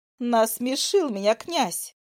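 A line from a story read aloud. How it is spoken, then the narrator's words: Laughing hard. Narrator (Russian): заходится в хохоте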